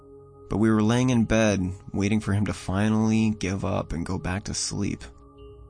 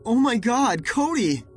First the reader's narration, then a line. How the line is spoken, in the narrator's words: screamed as I ran to him, a cold fear stabbing at my heart